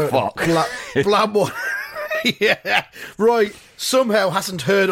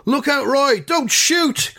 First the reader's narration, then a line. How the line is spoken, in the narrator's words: one of the players shouts